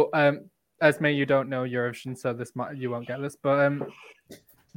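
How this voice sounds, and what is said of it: Usual voice. Nothing is said of it.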